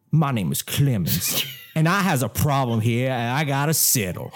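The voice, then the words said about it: Bad put-on southern accent. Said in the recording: “So that's our southern accents for the remainder of this? ... Should I do an accent? ... It's going to be bad.”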